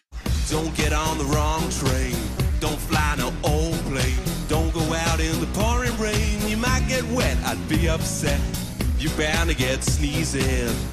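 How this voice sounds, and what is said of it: Fake American Southern accent singing. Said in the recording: “he's trying to do like an American accent ... they're doing like sort of fake American Southern accents”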